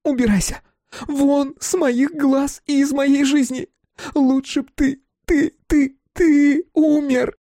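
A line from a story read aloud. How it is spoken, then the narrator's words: Screaming and sobbing. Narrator (Russian): Мила орала и рыдала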